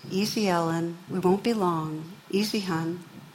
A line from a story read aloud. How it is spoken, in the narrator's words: the grandma's working her way around saying in a controlled voice